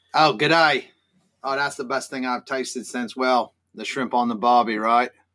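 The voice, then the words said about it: Put-on Australian accent. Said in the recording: “we've heard an English and an Australian accent”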